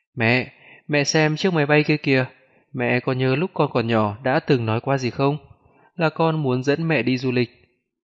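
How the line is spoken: Smiling speech. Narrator (Vietnamese): mỉm cười nói

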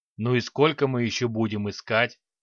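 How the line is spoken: Displeased grumble. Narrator (Russian): недовольно проворчал Храд

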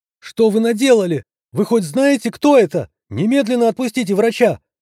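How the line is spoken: Woman yelling outside. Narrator (Russian): заорала женщина снаружи

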